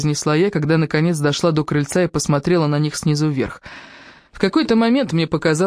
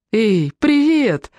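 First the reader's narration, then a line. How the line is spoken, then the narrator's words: Laughing exclamation. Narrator (Russian): воскликнула она, смеясь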